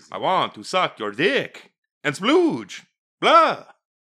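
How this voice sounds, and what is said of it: Horny Dracula character voice. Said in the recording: “my horny Dracula impression”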